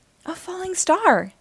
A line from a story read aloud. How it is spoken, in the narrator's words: she cried